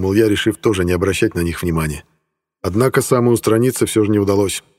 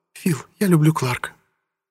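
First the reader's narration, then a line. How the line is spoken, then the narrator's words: Soft-spoken. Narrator (Russian): Кэрол негромко произнесла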